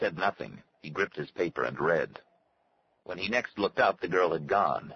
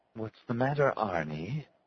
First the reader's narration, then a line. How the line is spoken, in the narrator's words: Her voice purred, like metal wheels rubbing, an automatic sound coming forth from her, like on a recording